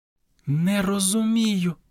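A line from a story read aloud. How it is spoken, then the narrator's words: Whisper. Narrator (Ukrainian): прошепотіла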